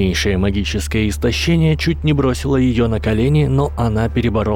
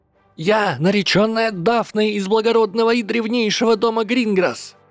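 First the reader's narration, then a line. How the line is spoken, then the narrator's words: Shouted. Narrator (Russian): крикнула она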